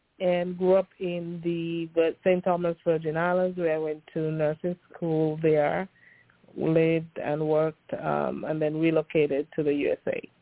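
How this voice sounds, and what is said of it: Pleasant Caribbean accent. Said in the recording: “I'm from the Caribbean ... it's a pleasant accent.”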